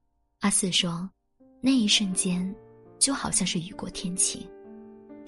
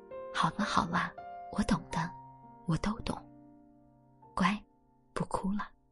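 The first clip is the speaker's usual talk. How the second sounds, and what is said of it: Soft, quiet comforting voice. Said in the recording (Chinese): “小声”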